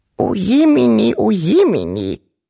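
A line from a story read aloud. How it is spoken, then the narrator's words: Ancient grandmother's squeak. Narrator (German): piepste die uralte Wawuschel-Großmutter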